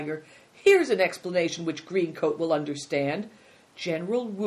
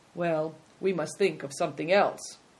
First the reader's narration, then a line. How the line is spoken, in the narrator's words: was startled by the effect of his suggestion, and then he said quietly